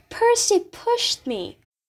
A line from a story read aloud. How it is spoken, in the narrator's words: screaming